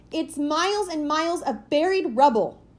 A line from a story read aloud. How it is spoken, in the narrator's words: she cried